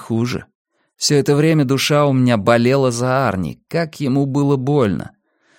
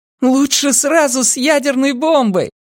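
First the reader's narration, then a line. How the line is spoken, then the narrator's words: Shouting. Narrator (Russian): прокричала Ли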